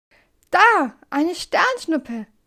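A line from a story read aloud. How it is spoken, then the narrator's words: Called out. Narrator (German): ruft Pilo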